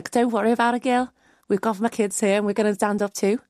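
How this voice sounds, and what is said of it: Good put-on Liverpool accent. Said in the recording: “that was a very good Liverpool accent”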